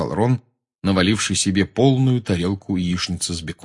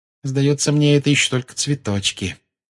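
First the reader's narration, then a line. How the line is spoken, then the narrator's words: Grim remark. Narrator (Russian): мрачно заметила Гермиона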